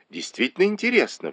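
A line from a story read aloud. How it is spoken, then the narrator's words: Exclamation. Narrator (Russian): воскликнула Ли Вань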